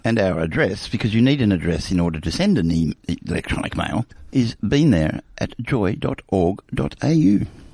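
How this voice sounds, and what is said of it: Soothing radio voice. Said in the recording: “that's my soothing radio voice... So I'm sorry if you just nodded off.”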